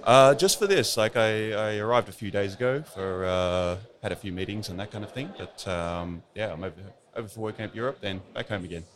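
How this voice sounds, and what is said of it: Australian accent. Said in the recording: “I'm detecting from your accent that you might be from Australia.”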